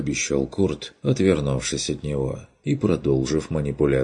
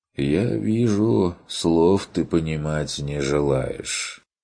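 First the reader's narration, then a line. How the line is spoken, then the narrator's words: Sighing. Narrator (Russian): вздохнул страж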